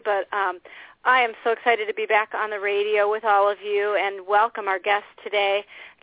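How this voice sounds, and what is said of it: Slightly crackly voice. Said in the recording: “My voice is a little bit crackly”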